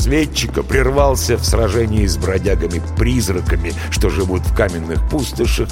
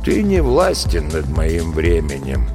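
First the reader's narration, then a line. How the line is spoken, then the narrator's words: Sad reply. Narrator (Russian): грустно ответил травник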